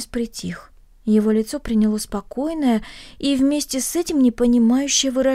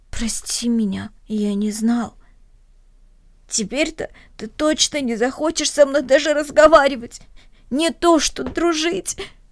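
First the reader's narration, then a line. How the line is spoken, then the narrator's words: Sobbing. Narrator (Russian): всхлипнул Денис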